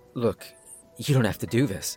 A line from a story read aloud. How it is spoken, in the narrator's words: I murmured softly